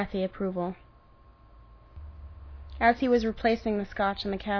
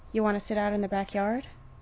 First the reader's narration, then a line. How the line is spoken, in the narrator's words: He said it softly, knowing it may be too much, maybe too forward